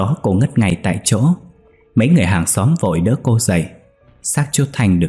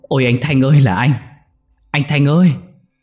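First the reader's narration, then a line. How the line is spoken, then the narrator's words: Anguished scream. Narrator (Vietnamese): Cô Hiền thấy thế thì hét lên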